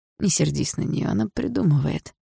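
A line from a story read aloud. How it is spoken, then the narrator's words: Gentle. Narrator (Russian): мягко сказал Андрей маме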